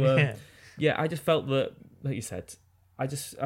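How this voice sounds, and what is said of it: Usual voice. Nothing is said of it.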